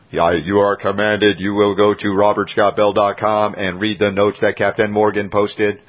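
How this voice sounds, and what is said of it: Robotic commanding voice. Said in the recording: “That was my robot voice. ... we were going like Darth for a minute and then suddenly we were Android.”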